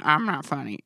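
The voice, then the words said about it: Jen Kirkman impression. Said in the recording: “my Jen Kirkman impression”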